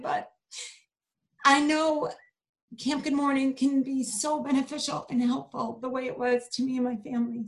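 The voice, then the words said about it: Tearful, emotional voice. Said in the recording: “I'm getting teary-eyed”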